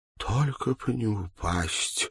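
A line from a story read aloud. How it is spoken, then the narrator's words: Pleading. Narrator (Russian): взмолилась она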